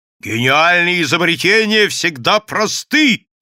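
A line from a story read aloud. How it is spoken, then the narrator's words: Shouting. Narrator (Russian): кричал Бабский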